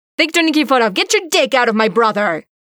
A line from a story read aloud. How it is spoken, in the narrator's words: Maddie yelled in sharply accented English